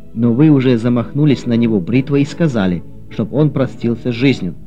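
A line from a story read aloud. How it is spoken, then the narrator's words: Plain. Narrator (Russian): сказал полицейский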